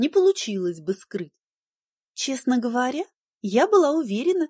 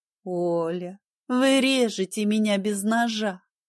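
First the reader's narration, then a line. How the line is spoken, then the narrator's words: Woman laughing. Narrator (Russian): рассмеялась женщина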